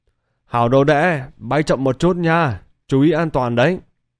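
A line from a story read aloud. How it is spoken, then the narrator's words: Shouting. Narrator (Vietnamese): hét lớn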